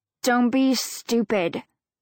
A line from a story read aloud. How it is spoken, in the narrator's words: Lindsay snaps